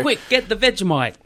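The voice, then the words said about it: Poor put-on Australian accent. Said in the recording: “What accent was that? ... I'm not a very good Australian, I guess.”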